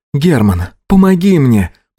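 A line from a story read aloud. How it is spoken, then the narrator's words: Girl's moan. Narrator (Russian): Простонала девушка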